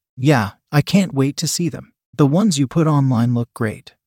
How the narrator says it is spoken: Carl replied

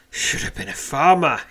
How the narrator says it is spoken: says somewhat breathlessly

